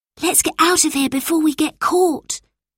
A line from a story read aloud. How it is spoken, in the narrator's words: whispered Abby